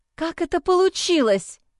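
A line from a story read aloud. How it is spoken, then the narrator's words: Quiet rising to near-shout. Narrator (Russian): Сперва тихо, а затем по нарастающей почти закричала я на мальчика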